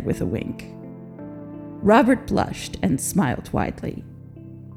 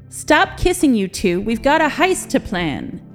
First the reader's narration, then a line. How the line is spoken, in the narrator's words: Jin shouted down the hallway